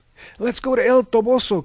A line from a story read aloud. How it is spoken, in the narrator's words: cried Mahogany